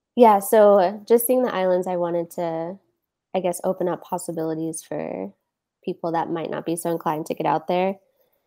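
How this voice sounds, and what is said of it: Scratchy voice. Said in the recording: “my voice is getting a little ... scratchy.”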